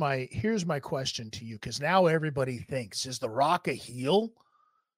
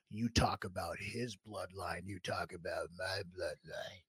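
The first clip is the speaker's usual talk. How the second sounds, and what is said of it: Imitates another person's voice. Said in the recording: “That's a pretty good impression... it was spot on.”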